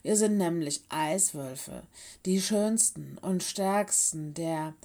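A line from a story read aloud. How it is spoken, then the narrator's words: Hoarse laughing addition. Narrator (German): ergänzte Willis und lachte heiser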